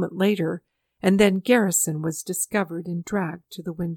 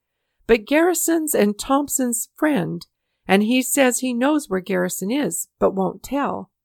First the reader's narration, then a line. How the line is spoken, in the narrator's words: the captor shouted to the mob outside